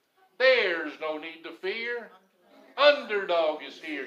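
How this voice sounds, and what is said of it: Imitates cartoon superhero Underdog's voice. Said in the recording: “Underdog's favorite saying ... I worked with that imitation all week”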